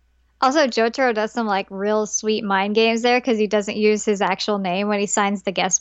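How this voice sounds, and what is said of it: Usual voice. Nothing is said of it.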